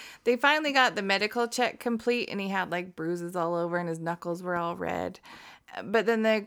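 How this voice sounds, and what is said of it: Usual voice. Nothing is said of it.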